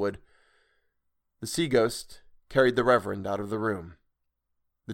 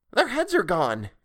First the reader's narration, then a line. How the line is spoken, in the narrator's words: exclaimed Ernest, with a glee Dick found a little disturbing